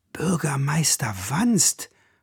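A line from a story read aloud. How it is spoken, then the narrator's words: Crowd murmuring. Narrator (German): raunten die Leute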